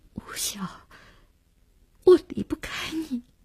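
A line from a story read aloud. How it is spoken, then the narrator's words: Choked sob. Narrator (Chinese): 只哽咽了一句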